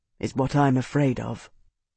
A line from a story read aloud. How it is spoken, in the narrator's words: he said quietly